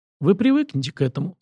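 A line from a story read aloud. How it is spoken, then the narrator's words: Calm statement. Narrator (Russian): спокойно заявил я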